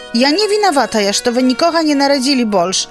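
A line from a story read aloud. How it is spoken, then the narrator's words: Hurt outcry. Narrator (Belarusian): выкрыкнула з крыўдай Марыйка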